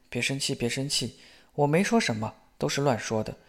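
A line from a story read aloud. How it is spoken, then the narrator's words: Soft, comforting. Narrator (Chinese): 小声安慰说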